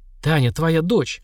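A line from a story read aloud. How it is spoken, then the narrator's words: Breathless, strained. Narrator (Russian): задыхаясь, выдавила из себя Зоя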